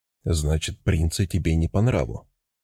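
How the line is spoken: Flat emotionless voice. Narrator (Russian): спросил я ровным, абсолютно безэмоциональным голосом

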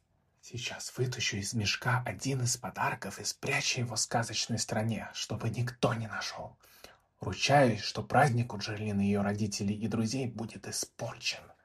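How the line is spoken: Whisper, faint gloating laugh. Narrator (Russian): прошептало облако и еле слышно злорадно рассмеялось

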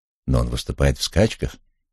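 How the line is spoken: Gentle objection. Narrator (Russian): мягко возразил Кристофер

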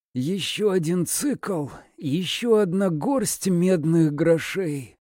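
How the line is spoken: Hoarse rasp. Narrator (Russian): прохрипела она

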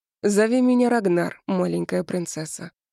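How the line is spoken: Surprisingly gentle. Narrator (Russian): произнес он удивительно ласково

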